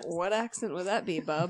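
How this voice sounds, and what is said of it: Put-on down east Maine accent. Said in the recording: “your down east Maine accent”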